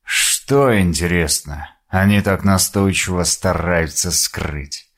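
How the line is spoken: Muttering to himself. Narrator (Russian): Пробормотал он себе под нос

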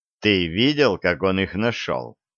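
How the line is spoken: Calm, wary. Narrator (Russian): спокойно, настороженно сказал

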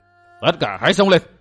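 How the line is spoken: Old man's shout. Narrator (Vietnamese): Lão hộ pháp quát

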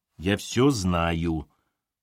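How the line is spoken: Embarrassed grumble. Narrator (Russian): проворчал смущенный Терентьев

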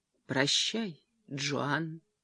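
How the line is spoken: Quiet. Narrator (Russian): тихо произнес

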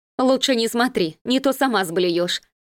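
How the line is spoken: Short laugh. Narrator (Russian): хохотнула пациентка

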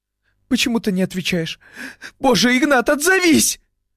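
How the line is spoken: Sobbing. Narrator (Russian): всхлипывала Лиля

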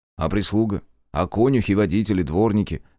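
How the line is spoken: Snort. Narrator (Russian): хмыкнул я

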